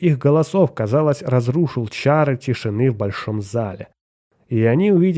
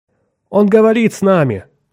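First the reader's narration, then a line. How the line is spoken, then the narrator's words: Shouting. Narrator (Russian): закричал он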